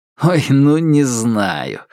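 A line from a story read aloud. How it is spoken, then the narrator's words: Laughed. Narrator (Russian): рассмеялся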